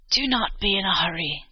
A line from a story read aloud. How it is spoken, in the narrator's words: croaked the old woman